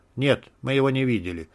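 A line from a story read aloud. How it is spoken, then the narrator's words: Calm reply. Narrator (Russian): спокойно отозвался Шмель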